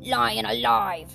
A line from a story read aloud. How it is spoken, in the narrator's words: roared the dwarf